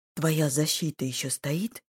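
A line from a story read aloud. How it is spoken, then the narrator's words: Quiet. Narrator (Russian): Тихо спросил у меня Санат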